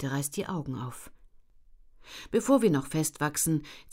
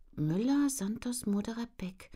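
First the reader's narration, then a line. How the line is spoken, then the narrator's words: Murmuring. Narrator (German): murmelt Jette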